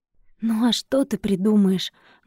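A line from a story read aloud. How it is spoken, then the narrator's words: Bitter sigh. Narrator (Russian): горько выдохнул Димка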